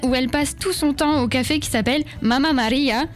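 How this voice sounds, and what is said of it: Attempted Italian accent. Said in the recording (French): “j'essaye avec l'accent, mais je suis pas certaine. ... c'est pas mal.”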